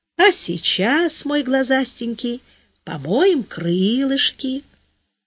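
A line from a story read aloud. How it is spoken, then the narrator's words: Child's tender cooing. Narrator (Russian): сынок, нежно воркует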